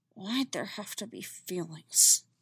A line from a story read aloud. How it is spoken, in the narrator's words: She muttered